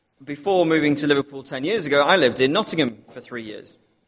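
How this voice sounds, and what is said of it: Liverpool accent. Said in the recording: “I know you might not be able to tell it by my accent, but I haven't lived in Liverpool all my life.”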